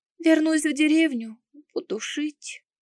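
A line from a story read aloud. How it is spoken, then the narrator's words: Sobbing explanation. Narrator (Russian): пояснила, всхлипнув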